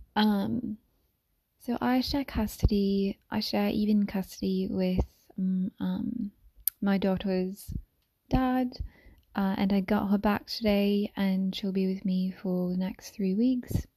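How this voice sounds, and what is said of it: Put-on English British accent. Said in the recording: “I'm going to be using my like English, British accent ... I'm going to be using an English accent. I just like to occasionally do an English accent.”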